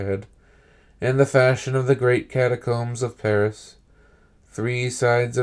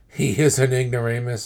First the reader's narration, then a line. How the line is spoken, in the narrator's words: interrupted my friend